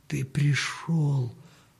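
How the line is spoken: Whisper. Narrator (Russian): прошептал Данила

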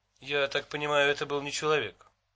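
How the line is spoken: Dry. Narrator (Russian): сухо сказала Китти

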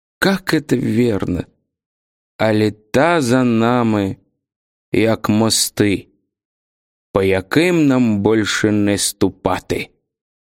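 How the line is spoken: Hoarse, strained voice. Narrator (Russian): Он хрипловато прокашлялся и произнес сдавленным голосом

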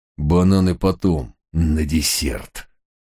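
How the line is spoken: Rasped through gritted teeth. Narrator (Russian): проскрипел зубами закоренелый преступник

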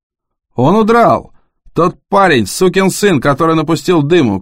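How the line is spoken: Shouting, accent gone. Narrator (Russian): крикнул Джон, и его акцент совершенно пропал

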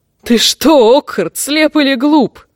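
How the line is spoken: Chuckling. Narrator (Russian): хохотнул темная звезда

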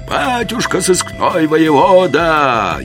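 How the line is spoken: Crowd roaring in unison. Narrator (Russian): Едва ли не хором проревела толпа

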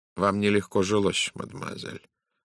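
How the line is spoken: Gentle. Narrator (Russian): мягко произнес Пуаро

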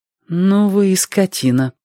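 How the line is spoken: Almost calm. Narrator (Russian): сказала она почти спокойно

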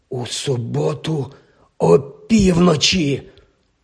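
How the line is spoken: Hoarse exclamation. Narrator (Ukrainian): хрипко вигукнув

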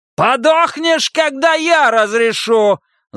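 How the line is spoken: Yell. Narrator (Russian): заорал Ван Дикен

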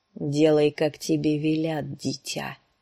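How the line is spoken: Plain. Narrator (Russian): сказал Клиган

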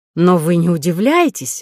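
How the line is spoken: Exclaiming. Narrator (Russian): воскликнула она

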